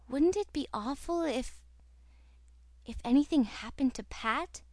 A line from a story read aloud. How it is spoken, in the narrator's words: whispered Cecily